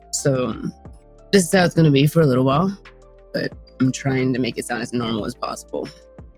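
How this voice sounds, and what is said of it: Strained, damaged raspy voice. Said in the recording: “I'm gonna ruin my chords if I keep doing that ... I have a vocal cord hemorrhage ... Just sounds pretty punk rock”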